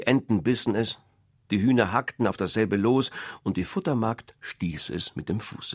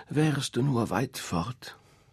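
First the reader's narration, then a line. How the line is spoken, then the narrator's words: Mother sighing. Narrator (German): die Mutter seufzte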